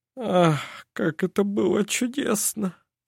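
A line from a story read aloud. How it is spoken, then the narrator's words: Murmured. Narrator (Russian): Пробормотал он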